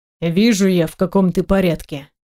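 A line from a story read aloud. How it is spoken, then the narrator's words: Grumbling under breath. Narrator (Russian): бурчит себе под нос Балабанов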